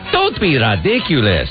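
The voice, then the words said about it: Put-on vaguely Spanish-sounding accent. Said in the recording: “I even said it with an accent there ... It's like a Spanish accent? ... That's the only accent I know how to do ... It was just a fake made-up accent.”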